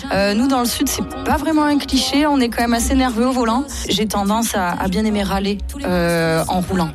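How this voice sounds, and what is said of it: Southern French accent. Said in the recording (French): “je suis sudiste, je pense que ça s'entend mon petit accent.”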